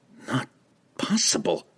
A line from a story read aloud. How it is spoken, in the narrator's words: he gasped